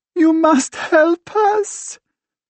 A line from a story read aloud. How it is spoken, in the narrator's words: she wails